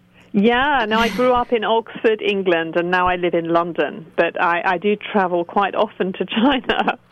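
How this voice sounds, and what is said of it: British accent. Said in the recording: “your accent that you are not Chinese. You are from the UK.”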